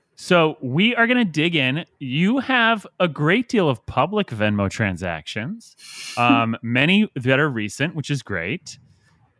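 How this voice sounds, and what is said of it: Announcer-style radio voice. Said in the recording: “I'm getting into my radio voice.”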